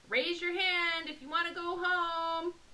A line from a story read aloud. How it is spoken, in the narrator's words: I yelled